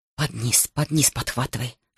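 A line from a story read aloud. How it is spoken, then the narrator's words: Whispering. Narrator (Russian): шептал он кому-то в синях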